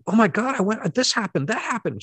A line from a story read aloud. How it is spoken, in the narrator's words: I'd sit up and exclaim